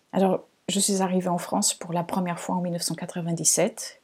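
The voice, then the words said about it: Slight hard-to-place foreign accent. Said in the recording (French): “un petit accent. Donc, il vient de là-bas... on me dit souvent que je n'ai pas un accent portugais... un accent pas très identifiable”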